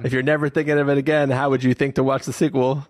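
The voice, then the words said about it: Put-on New Jersey accent. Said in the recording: “What accent did you just pick up? ... Did you just fly in from Jersey just there? ... immediately adopts a Jersey accent.”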